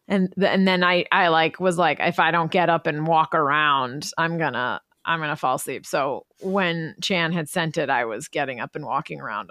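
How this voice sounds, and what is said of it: Sleepy, hoarse voice. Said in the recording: “my dulcet, sleepy, hoarse tones”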